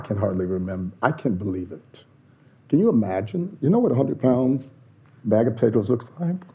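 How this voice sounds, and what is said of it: Northern US Yankee accent. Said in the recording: “I speak with a Yankee accent”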